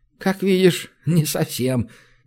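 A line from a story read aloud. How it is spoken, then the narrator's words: Sickly giggle. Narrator (Russian): нездорово хихикнул Румака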